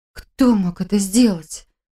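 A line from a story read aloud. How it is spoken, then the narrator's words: Frightened breath. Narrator (Russian): испуганно выдохнула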